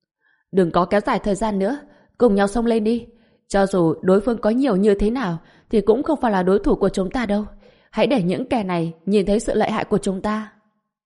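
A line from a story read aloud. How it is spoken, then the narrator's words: Leaders shouting at once. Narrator (Vietnamese): những người dẫn đầu trong nhóm môn đồ lập tức hét lên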